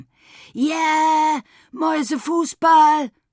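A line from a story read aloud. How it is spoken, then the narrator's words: Shouted. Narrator (German): schrie Tom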